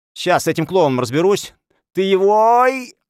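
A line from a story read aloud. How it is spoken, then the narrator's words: Shouted. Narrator (Russian): Эдик выкрикнул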